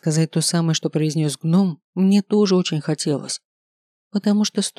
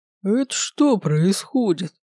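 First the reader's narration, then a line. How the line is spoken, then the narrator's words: Puzzled deep bass. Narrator (Russian): недоуменно пробасил староста Пуруш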